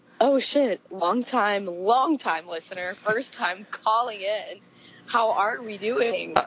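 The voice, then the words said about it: Sultry, sexy-sounding voice. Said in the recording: “you have a sexy voice.”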